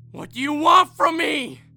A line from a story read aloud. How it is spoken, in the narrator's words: screamed into my phone so loudly that my neighbors could hear it